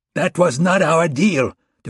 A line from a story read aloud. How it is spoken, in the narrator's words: Durrani shouted